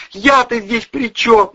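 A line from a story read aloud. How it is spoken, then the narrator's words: Wailed. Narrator (Russian): взвыл Дворцин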